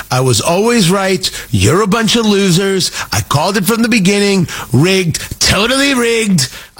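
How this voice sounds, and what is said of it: Half-committed Donald Trump impression. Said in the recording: “I don't do a Trump impression. Everybody and their mother can do a Trump impression. My problem is I don't think I'm willing to commit.”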